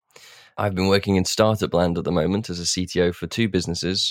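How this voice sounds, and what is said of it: Sick, under-the-weather voice. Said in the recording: “getting over COVID, which you might be able to hear from my voice”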